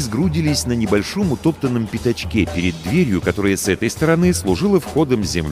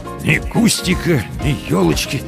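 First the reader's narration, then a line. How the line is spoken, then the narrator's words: Dejected mumble. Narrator (Russian): сокрушенно пробормотал Комаровский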